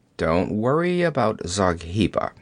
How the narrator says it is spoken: he grunted

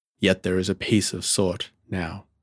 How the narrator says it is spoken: murmured Sir Robert

